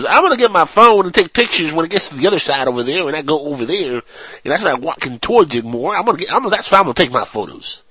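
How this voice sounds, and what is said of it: Put-on stoner hillbilly accent. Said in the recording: “switched from a stoner accent to a hillbilly accent ... this is a stoner hillbilly. So it's a mixture of both”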